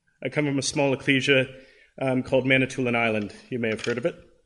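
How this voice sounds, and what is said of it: Canadian English accent. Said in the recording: “recognize the accent, I'm not originally from Adelaide ... I'm not from America. I'm from Canada.”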